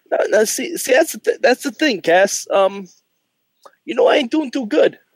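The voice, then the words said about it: Put-on New Jersey tough-guy voice. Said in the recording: “my Enzo Amore impression. I've been trying to talk like a Jersey douchebag all day”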